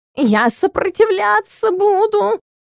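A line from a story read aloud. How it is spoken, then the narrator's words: Howling. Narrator (Russian): взвыл Стикс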